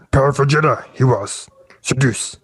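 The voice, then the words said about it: Yoda character voice impression. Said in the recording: “My best Yoda impression.”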